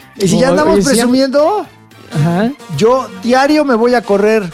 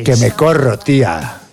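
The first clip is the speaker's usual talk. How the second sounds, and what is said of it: Put-on Spain Spanish accent. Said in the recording (Spanish): “¿por qué dice como español ... los acentos extranjeros son muy excitantes”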